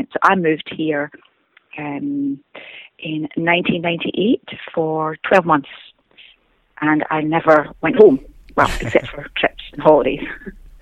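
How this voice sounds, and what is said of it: Scottish accent. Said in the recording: “most people back home think that my accent has changed ... I'll always have a Scottish accent”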